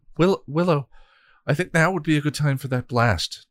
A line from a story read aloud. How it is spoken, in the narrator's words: Tara said nervously